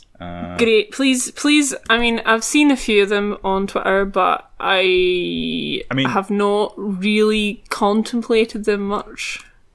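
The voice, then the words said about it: Glaswegian Scottish accent. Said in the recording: “the Glaswegian accent”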